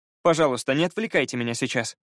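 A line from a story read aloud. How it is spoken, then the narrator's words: Commanding, unpleading tone. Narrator (Russian): велел он совсем непросительным тоном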